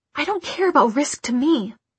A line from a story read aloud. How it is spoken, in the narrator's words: he hissed